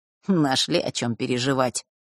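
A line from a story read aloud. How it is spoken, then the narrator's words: Snort. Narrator (Russian): фыркнул Фэш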